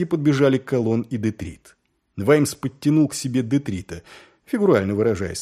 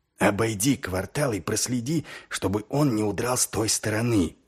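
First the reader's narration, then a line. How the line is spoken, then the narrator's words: Whisper. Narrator (Russian): прошептал он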